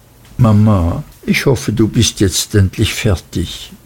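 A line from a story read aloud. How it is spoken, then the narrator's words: Very quiet, trembling voice. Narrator (German): Sie sagte dann sehr leise mit bebender Stimme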